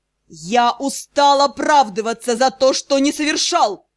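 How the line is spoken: Ruler growling. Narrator (Russian): Продолжал рычать повелитель Темной Империи

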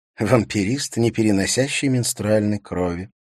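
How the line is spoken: Muttered. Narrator (Russian): пробормотала Катрина

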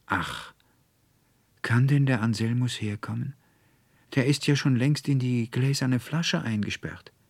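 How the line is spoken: Tearful sigh. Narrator (German): stürzten der Veronika die Tränen aus den Augen, und sie seufzte

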